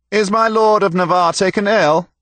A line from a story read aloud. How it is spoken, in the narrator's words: shouted the young William Montacute, Earl of Salisbury, in the boxy, snub-nosed French of English nobility